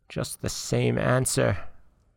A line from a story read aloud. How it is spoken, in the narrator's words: muttered the witch